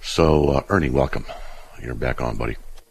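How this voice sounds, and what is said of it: Deep voice, chest cold. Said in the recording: “My voice is deepening a little bit because I'm developing a chest cold ... So my voice gets even deeper”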